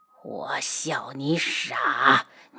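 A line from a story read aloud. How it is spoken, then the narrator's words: Cold. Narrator (Chinese): 童无冷声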